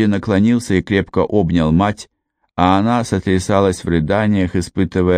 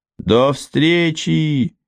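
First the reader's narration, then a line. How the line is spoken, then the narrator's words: Shouted. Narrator (Russian): крикнул Родди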